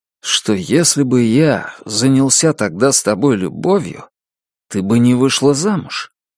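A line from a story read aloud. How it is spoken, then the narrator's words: Forced calm. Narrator (Russian): стараясь говорить спокойным тоном, произнес Джек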